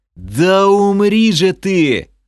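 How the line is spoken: Yelling. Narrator (Russian): заорал я

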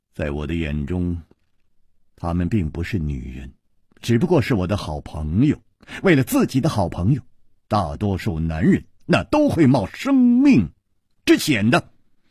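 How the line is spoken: Calm, detached. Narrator (Chinese): 她淡淡地说

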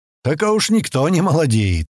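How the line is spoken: Snorting. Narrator (Russian): хмыкнул полусотник

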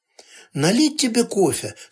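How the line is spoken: Soothing tone. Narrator (Russian): спросила она умиротворяющим тоном

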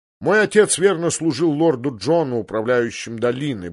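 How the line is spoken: Grumbled. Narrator (Russian): буркнул сир Альбер Ройс

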